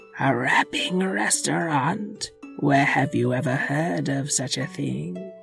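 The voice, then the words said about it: Evil witch character voice. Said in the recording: “don't put on your evil witch voice.”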